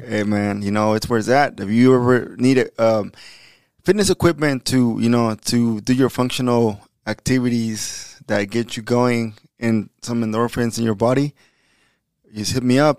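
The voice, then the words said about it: Slightly raspy, sleepy voice. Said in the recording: “I'm a little raspy because of the game. Probably a little sleepy”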